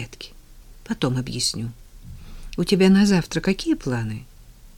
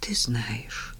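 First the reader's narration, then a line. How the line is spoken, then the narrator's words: Quiet. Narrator (Russian): так же тихо ответила Таня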